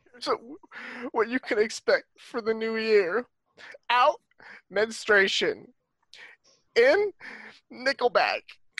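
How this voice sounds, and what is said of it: Speaking while crying. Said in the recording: “your accent is cry”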